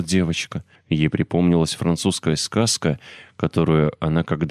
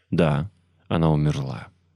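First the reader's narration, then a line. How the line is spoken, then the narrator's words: Sighing. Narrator (Russian): вздохнула миссис Медлок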